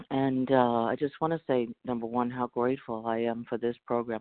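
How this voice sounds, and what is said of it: Congested voice from a cold. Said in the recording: “I have a little bit of a cold today, so I hope I sound okay.”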